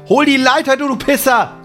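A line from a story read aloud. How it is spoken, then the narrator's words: Angry shouting. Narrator (German): schreit Sam ihn an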